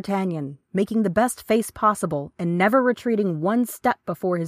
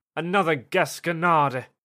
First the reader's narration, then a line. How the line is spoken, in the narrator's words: murmured the gentleman